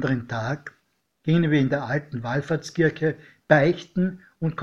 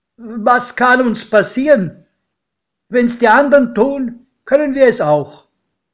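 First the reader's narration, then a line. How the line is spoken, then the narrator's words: Calling out. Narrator (German): rief mein Pate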